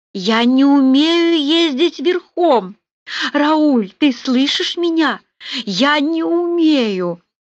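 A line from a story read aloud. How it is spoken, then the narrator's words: Desperate shout into crying. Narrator (Russian): закричала Полли в отчаянии и заплакала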